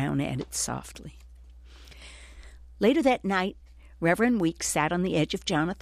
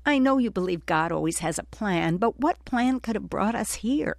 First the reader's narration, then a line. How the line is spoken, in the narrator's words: Jonathan sobbed